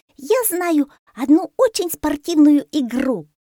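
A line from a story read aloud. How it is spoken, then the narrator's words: Shouting. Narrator (Russian): закричала мартышка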